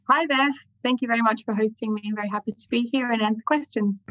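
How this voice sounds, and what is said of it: Australian accent, possibly mixed. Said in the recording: “as you might be able to tell from my accent, I am um, originally from Sydney, although maybe mixed now because I live in London”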